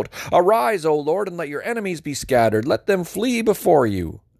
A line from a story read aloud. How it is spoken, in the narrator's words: Moses would shout